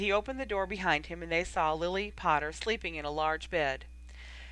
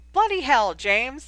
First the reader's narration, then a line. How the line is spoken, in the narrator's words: exclaimed Sirius loudly